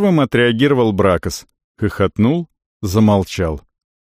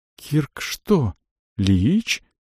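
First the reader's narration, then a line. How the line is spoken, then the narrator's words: Young mage, trembling voice. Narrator (Russian): дрогнувшим голосом спросил мажонок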